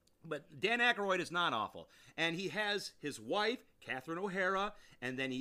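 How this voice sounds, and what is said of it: Usual voice. Nothing is said of it.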